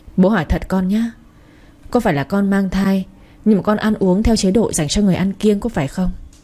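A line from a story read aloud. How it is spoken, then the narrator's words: Sighing question. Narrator (Vietnamese): Ông Đạt thở dài rồi hỏi Trang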